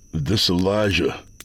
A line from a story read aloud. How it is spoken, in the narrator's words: I said